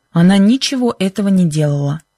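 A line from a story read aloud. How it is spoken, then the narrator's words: Sharp voice. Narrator (Russian): сказал Бен резким голосом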